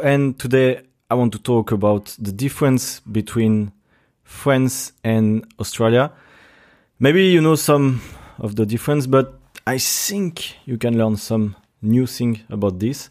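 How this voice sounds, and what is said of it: Strong non-native English accent. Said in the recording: “My accent is quite fucking bad”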